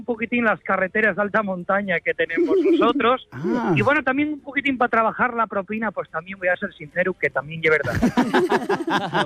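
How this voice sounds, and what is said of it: Asturian-accented Spanish. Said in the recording (Spanish): “Voy a intentar hablar castellano, pero bueno, el acento asturiano y es normal nada, que me salga”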